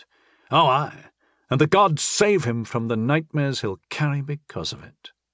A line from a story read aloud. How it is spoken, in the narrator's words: Janik sighed